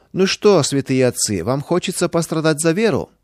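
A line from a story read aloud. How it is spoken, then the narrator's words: Mocking question. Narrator (Russian): спросил ДПНК насмешливо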